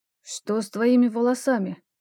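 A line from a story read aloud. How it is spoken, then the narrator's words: Hoarse question. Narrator (Russian): хрипло спросил меня Алекс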